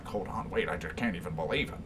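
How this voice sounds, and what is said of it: Liam Neeson impression. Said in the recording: “it's my Liam Neeson accent.”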